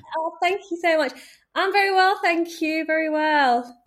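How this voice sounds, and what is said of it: Non-American, English Midlands accent. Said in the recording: “you have an accent that tells us you're not from the States”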